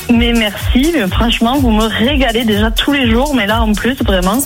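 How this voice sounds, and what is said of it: Toulouse French accent. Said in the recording (French): “Ça, c'est l'accent toulousain.”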